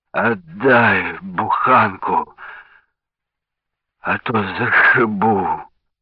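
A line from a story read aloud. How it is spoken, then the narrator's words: Hoarse breathy threat. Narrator (Russian): хрипло выдохнул милиционер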